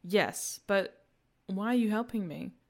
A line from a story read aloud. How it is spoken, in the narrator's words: Hugo sighed